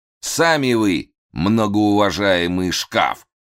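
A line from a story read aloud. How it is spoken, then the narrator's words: Loud displeased grumble. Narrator (Russian): довольно громко пробурчал Разумовский, очевидно, тоже недовольный ролью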